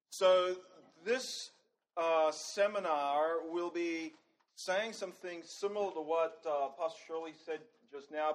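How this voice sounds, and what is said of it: Australian accent. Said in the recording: “You might be wondering from my accent where I'm from... I'm from the deep south... From Australia.”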